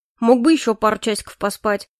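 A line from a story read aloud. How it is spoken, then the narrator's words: Snort. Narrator (Russian): хмыкнул Нолан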